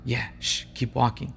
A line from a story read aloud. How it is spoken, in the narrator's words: Another whispered back